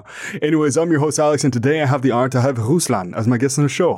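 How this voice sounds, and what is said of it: Deep, smooth radio voice. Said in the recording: “My voice is nice and deep, so it's going to be a silky smooth episode ... your voice is very uh, like comfortable to listen to ... you have like the the golden radio voice”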